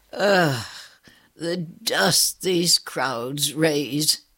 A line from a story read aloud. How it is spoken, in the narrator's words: sighed